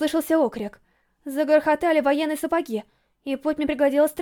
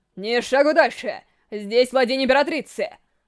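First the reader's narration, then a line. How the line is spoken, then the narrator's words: Menacing warning, powerful man. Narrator (Russian): Грозно предупредил могучий мужчина в полном доспехе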